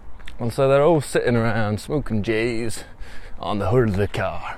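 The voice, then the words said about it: Put-on American accent. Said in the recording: “So much easier to do this in American accent. ... I don't know if Americans would think my American accents are any good”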